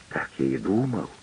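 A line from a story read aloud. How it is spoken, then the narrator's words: Forester muttering. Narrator (Russian): бормочет лесничий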